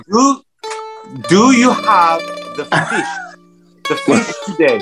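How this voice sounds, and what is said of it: English with put-on Italian accent. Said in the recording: “speaking English with an Italian accent”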